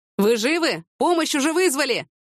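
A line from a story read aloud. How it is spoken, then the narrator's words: Shouted from above. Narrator (Russian): прокричал им кто-то сверху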